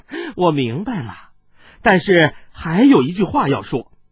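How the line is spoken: Giggling. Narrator (Chinese): 孙小娇咯咯的笑道

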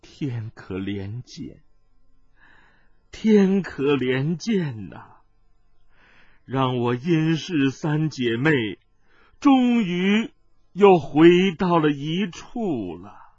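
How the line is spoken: Old woman murmuring. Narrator (Chinese): 老婆子 喃喃地说

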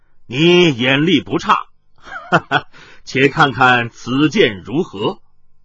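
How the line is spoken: Laughing. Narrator (Chinese): 那麻衣客笑道

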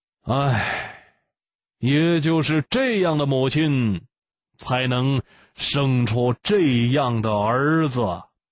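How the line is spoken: Sighing. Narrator (Chinese): 刘彻叹了一口气

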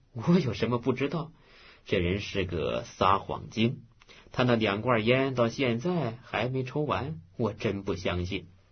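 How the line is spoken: Laughing. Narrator (Chinese): 新梅笑道

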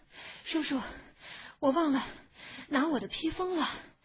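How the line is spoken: Breathless. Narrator (Chinese): 他一面喘着气，一面说

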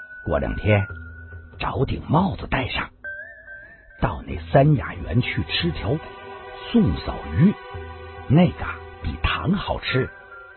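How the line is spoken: Whispered. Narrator (Chinese): 段誉觉得有趣，悄声的说道

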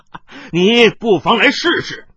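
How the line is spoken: Wild laughter. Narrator (Chinese): 冷一风狂笑道

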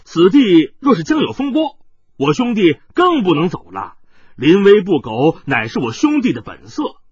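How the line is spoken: Loud speech. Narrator (Chinese): 欧阳少年大声说道

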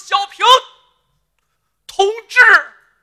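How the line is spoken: Moved, tearful call. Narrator (Chinese): 陈连亭一股暖流撞心胸，眼圈红，喊了一声

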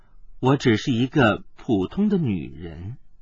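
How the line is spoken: Soft laugh, gentle voice. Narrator (Chinese): 他柔声一笑，接道

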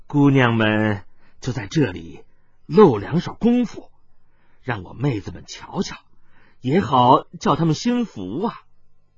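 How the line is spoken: Gentle smiling. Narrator (Chinese): 他面上笑容更温柔了，接着说道

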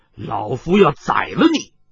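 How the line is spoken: Old man, stern. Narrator (Chinese): 雷鞭老人厉声说道

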